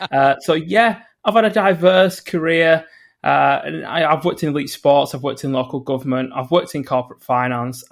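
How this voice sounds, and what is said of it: Northern English accent. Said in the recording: “I'm based in the north of England, if you can't tell by the accent already”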